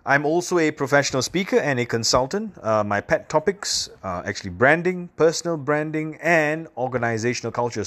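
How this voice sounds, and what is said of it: Singaporean accent mixing British and American. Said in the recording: “I come from a little island in Southeast Asia called Singapore ... that's why my accent sounds like that. It's a little bit strange. That's because I grew up learning the Queen's English. But at the same time, I grew up too much American TV.”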